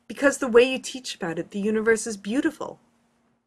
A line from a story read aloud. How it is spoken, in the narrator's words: he finally blurts